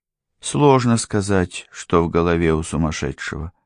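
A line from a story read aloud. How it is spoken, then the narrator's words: Sighing. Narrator (Russian): вздохнула Дерика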